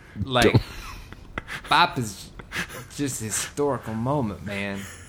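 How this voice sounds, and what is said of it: Put-on character voice with shifting accent. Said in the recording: “You're turning into Bagel, that Bagel guy. ... I'm getting some accent here. I feel like I'm tuning in a shortwave radio or something.”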